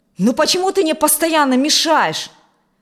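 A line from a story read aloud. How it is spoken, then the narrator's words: Angry shout. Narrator (Russian): со злостью выкрикнул Алексей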